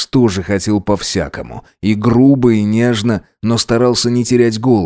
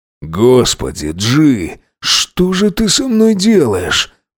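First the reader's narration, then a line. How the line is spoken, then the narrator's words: Exhausted moan. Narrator (Russian): простонал он из последних сил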